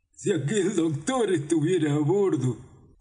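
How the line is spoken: Half growl, half bark. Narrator (Spanish): contestó con una voz mitad gruñido, mitad ladrido

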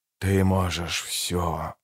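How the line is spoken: Whispering flame. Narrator (Russian): шептало пламя

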